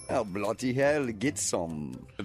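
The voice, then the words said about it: Unconvincing put-on English accent. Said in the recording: “Is that an accent? ... Yeah, it's English, bro ... Doesn't sound English ... It sounds like Dracula”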